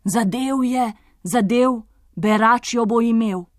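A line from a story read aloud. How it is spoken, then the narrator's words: Crowd exclaiming. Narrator (Slovenian): Tedaj so kraljična, kralj in ves dvor vzkliknili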